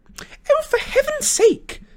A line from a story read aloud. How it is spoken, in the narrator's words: Hermione cried